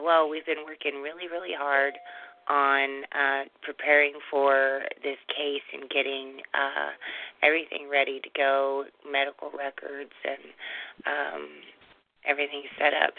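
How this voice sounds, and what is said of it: Weak, fading voice. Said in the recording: “My voice is leaving today”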